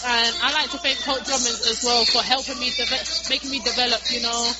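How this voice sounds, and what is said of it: English accent. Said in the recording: “I can sit and listen to her talk the whole night. I mean, how cool is that accent, man? That is so sweet”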